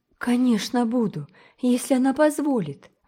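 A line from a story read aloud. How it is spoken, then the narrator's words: Charming, ardent exclamation. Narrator (Russian): воскликнула ... со всей своей чарующей пылкой искренностью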